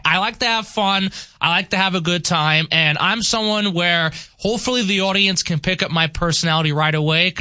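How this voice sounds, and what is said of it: Somewhat modified New York accent. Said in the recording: “I've got that New York flavor in me ... he don't sound like a New Yorker ... I do sound like a New Yorker ... Your accent is somewhat modified ... It is modified”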